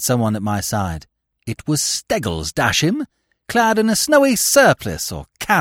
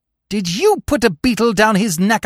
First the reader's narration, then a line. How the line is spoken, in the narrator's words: I cried